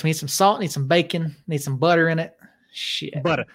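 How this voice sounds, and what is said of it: Exaggerated Southern accent. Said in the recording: “I needed you to reach your your level of accent when you say stupid ... Southerners like flavor”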